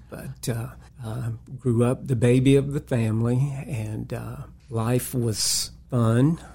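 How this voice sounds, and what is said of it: North Carolina Southern accent. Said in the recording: “I'm a North Carolina boy, and you can probably tell by the accent”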